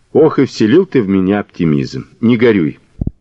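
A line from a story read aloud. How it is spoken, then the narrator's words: Plain. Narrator (Russian): сказал Мазур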